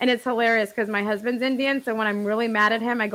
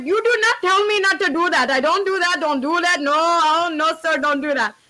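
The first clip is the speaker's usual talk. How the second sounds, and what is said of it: Exaggerated put-on Indian accent. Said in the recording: “the best, like, voice acting that I do is the Indian accent ... I go full-blown, like, Indian on him ... It's so bad. Oh, my God. It's so bad.”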